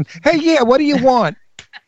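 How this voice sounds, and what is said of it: Put-on Brooklyn accent. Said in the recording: “I don't want them to come over with a Brooklyn accent.”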